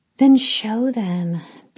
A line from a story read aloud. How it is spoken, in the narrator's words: Bea said, sighing